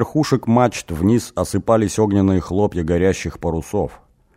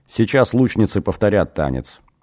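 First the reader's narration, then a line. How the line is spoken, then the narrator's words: Flat expressionless voice. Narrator (Russian): ничего не выражающим голосом сказала Куна Имгир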